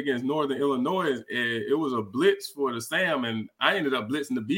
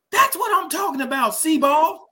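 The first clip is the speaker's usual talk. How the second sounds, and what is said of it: Yelled impression of a coach. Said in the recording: “he would always yell ... That's pretty good. Was that a pretty good impression”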